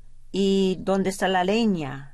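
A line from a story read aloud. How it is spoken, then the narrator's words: Plain. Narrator (Spanish): dijo ella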